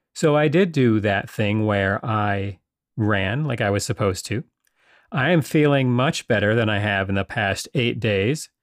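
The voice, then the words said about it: Slightly hoarse voice. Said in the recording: “I have a little problem with my voice ... my voice is a little hoarse”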